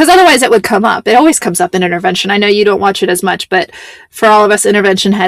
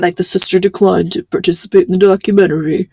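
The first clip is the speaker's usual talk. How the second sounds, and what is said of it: Imitates a documentary narrator voice. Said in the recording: “my imitation of the intervention”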